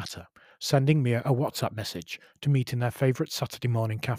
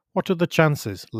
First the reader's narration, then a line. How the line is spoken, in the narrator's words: laughed Mia